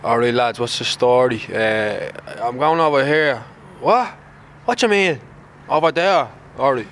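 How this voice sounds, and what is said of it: Put-on Clondalkin Dublin accent. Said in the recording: “can you do a Clondalkin accent for me?”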